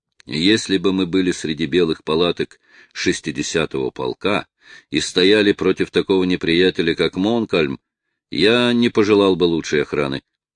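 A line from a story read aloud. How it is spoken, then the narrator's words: Plain. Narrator (Russian): ответил разведчик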